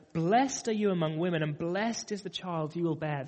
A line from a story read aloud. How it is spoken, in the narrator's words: In a loud voice, she exclaimed